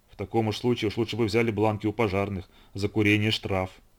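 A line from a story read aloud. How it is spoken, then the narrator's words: Gloomy remark, journalist. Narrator (Russian): Один из прибывших журналистов Нью-Йоркской газеты мрачно заметил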